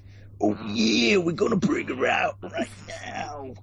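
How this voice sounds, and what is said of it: Macho Man Randy Savage impression. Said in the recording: “hosted by the Macho Man Randy Savage ... going like ... But you're gonna do that accent for a lot more. That's brilliant.”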